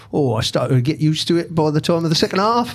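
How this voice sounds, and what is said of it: Weak attempt at Edinburgh accent. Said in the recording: “is that your Edinburgh accent? Not much of an accent”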